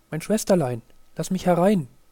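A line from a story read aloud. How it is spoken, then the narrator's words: Called out. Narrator (German): wie es rief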